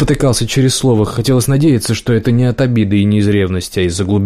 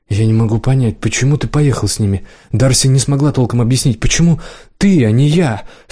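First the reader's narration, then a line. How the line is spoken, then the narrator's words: Anguished groan. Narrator (Russian): Страдальчески простонал Кирилл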